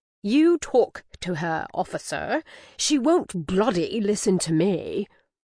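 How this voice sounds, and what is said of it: Lofty, poor put-on British accent. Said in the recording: “I did my lofty but still terrible British impression of Harry.”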